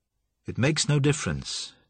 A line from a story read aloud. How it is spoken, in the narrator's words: Joshua said calmly